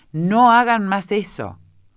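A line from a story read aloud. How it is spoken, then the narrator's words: Shout. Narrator (Spanish): gritó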